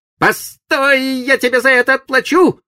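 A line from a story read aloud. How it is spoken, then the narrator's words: Farewell shout. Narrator (Russian): крикнув на прощание Сиду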